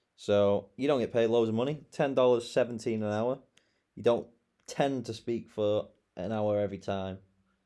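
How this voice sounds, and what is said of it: British English accent. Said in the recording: “born and bred in England. And you have a British accent.”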